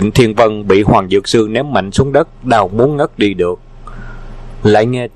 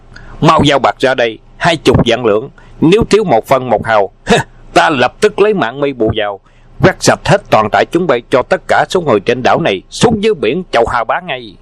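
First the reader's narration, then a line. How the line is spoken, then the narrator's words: Loud barking command. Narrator (Vietnamese): lớn tiếng quát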